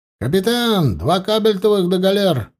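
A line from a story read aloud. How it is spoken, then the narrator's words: Shouted. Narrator (Russian): прокричал Стефан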